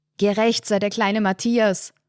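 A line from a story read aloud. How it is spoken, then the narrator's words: Screaming full force. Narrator (German): schreit Anton aus Leibeskräften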